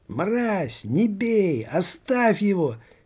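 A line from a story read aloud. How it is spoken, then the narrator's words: Frantic screaming. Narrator (Russian): Истошно завопила Юнникова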